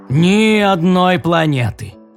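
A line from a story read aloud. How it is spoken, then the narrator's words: Deep bass voice. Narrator (Russian): пробасил Тим О'Шо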